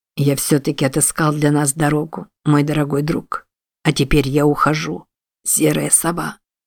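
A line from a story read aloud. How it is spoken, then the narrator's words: Mumbled, breaking voice. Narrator (Russian): пробормотал Чарльз надломившимся голосом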